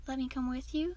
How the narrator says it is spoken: Softvine asked

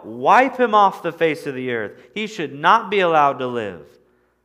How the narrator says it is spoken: they began to shout

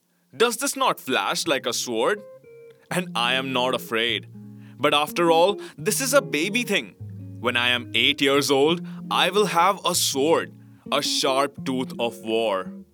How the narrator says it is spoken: cried

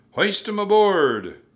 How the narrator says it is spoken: Cap'n Bones shouted to his men

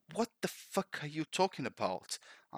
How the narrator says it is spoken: I cried

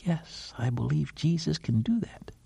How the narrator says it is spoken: whispers

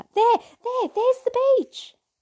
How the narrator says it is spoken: I heard heaps of kids screaming out

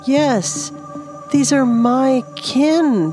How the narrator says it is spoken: she cried out in excitement

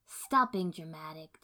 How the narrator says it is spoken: Tsunade said irritably

